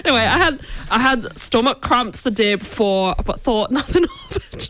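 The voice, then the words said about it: Attempted Scottish accent sounding Irish. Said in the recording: “Should I try Dundee. The accent? ... It's Irish. ... Can't do it anymore.”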